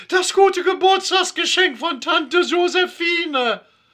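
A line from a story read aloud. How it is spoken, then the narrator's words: Screaming out. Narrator (German): Ilonka Schrelke schreit auf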